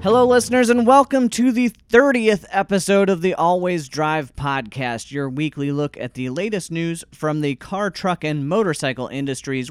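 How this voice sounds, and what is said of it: Slightly hoarse voice. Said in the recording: “I sound a little hoarse today”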